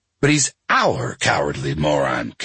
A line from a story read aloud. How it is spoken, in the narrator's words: Kathy says